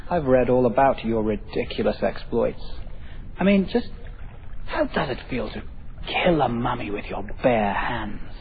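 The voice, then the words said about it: Snotty-sounding accent. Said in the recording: “your snotty accent”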